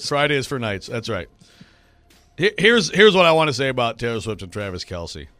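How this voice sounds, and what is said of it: Hoarse voice. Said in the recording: “your voice is recovered from Friday yet... I am still hoarse from... screaming Friday at officials”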